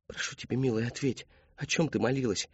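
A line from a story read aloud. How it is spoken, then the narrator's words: Soft question. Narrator (Russian): негромко спросила мать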